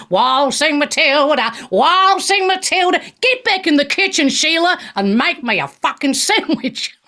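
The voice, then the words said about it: Singing in a put-on Australian accent. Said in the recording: “I should have sung it in an Australian accent”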